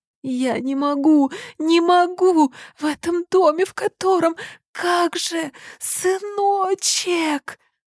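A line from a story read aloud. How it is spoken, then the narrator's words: Sobbing. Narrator (Russian): Опять начались рыдания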